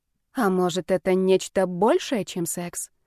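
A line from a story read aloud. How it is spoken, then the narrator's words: Impulsive near-whisper question. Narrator (Russian): почти шепотом спросила я, не сдержавшись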